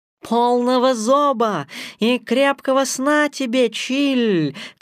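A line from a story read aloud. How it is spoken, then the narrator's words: Shout. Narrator (Russian): крикнула Багира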